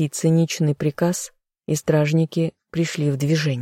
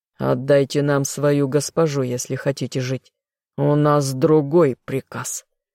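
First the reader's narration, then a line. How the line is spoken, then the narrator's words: Growling guard. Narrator (Russian): зарычал королевский гвардеец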